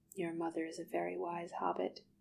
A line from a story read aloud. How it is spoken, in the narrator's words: Bilbo told her quietly